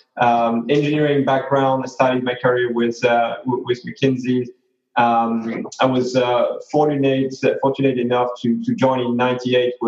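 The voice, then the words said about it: French accent. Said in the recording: “as probably everyone guessed from my accents, I'm originally from the other side of the channel. So I'm from France.”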